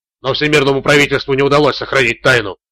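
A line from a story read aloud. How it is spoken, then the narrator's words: Triumphant. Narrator (Russian): торжествующим тоном произнес Рэй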